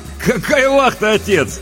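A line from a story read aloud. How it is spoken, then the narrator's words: Cheerful interruption. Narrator (Russian): весело перебил его Леонид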